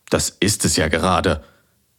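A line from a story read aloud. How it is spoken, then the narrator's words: Santa's growl. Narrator (German): knurrte der Weihnachtsmann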